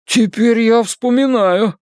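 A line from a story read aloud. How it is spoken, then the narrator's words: Shouting. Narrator (Russian): кричит Бен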